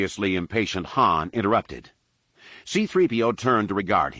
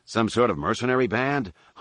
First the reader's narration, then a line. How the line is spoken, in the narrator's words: Han asked him